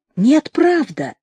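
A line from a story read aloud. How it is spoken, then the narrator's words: Heartfelt voice. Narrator (Russian): сказал Шульга проникновенным голосом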